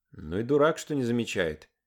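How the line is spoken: Quiet. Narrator (Russian): тихо сказал Пашка

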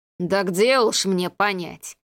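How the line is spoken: Mocking, dead man. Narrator (Russian): насмешливо проговорил покойник

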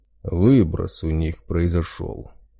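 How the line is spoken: Big man's snort. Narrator (Russian): хмыкнул здоровяк

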